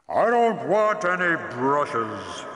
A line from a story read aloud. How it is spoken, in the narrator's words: the voice roared